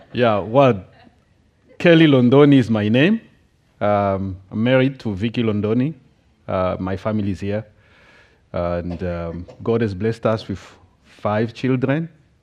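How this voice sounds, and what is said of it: Strong accent, possibly hard to follow. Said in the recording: “if you can't hear properly because of my accent”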